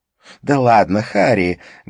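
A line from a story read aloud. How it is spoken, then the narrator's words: Loud laughter. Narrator (Russian): громко рассмеялась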